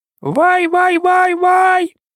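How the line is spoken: Pleading shriek turning to roar. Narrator (Ukrainian): Розляглося благальне верещання, але тут же воно переходило в загрозливий хижий рик

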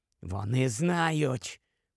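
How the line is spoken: Whisper. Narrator (Ukrainian): прошепотів Грибхук у вікно Гаррі

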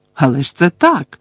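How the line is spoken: Heated exclamation. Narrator (Ukrainian): гаряче вигукнула Герміона

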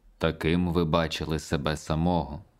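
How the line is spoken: Gentle. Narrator (Ukrainian): знов лагідно сказав Пабло

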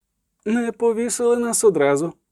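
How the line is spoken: Groaning. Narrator (Ukrainian): застогнав

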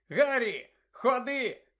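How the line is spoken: Shout. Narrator (Ukrainian): крикнув Джордж

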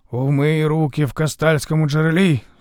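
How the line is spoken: Stern, several voices. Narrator (Ukrainian): суворо сказали жерці

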